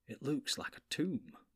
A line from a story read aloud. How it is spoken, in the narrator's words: muttered Frodo